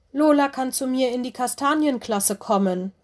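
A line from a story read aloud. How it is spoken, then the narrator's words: Calling out. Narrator (German): rief Lenny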